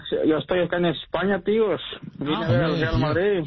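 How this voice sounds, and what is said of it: Put-on Spain Spanish accent. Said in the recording (Spanish): “Tío, ya te ha pegado el acento.”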